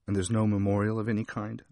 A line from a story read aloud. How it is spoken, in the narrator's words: asked